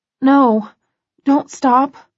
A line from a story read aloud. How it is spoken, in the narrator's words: I whimper